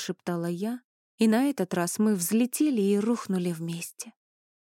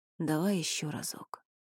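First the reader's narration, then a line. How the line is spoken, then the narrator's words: Muttered. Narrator (Russian): пробормотал он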